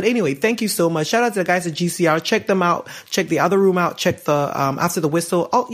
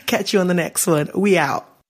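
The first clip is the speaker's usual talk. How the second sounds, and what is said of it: Put-on accent for sign-off. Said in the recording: “I'm gonna outro with you know some kind of an accent”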